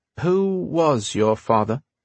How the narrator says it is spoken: She said slowly

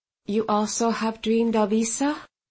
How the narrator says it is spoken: she asked softly

